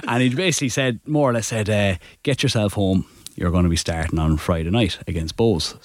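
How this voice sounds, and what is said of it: Attempted raspy Scouse accent. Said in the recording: “He's got a real raspy Scouse accent ... is that your Scouse accent? ... That was my Scouse accent, yeah. So, and it's a really raspy one as well ... deeper and more horse than that”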